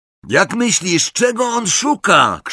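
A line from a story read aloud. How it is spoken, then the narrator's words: Shouted. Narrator (Polish): krzyknął Ron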